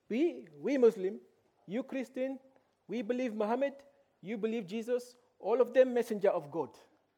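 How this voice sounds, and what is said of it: Imitated foreign accent. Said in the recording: “That's my trying to put on Ranjan's accent.”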